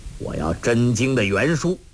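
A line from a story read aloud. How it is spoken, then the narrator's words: Angry. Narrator (Chinese): 怒目，对周伯通说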